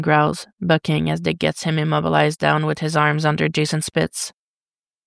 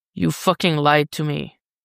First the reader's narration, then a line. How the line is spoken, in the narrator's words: Jason growls